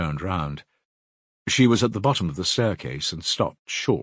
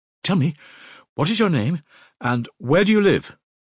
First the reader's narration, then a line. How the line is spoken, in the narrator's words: she said hurriedly in a breathless voice